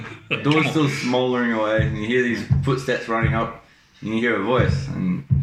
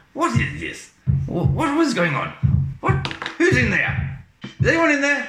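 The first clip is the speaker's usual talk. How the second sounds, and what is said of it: Put-on accent. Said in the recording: “we'll try this accent”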